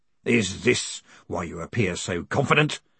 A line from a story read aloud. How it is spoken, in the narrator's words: snarled Gilt